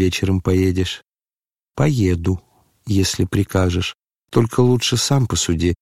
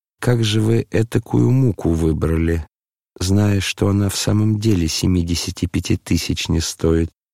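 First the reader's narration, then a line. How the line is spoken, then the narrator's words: Timid question. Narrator (Russian): спросил князь довольно робко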